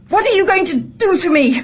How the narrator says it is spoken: I spat at her with a courage I didn't feel

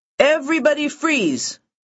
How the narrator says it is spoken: the Fed hollers

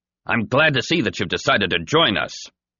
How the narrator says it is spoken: a voice called out

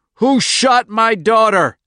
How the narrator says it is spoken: Andy screamed

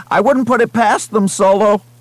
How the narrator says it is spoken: Someone at the back of Romani's group shouted

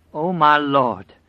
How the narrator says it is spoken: she cried in a great and quavering voice

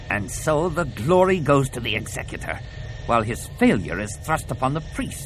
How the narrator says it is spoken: snarled Kalila

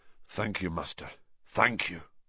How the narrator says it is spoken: murmured McNair

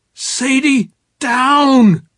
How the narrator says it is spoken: I shouted

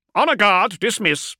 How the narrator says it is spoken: barked

